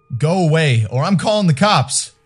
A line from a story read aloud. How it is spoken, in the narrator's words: yelled back